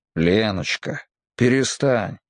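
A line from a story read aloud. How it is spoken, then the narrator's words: Low husky voice. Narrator (Russian): сказал он хрипловатым низким голосом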